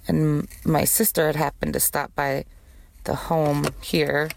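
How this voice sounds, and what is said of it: Croaky, aged-sounding voice. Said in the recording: “I sounded like a fucking 95-year-old ... I don't know why I got an accent all of a sudden ... Got a little bit of a fucking cold going on top of my regular smoker's cough”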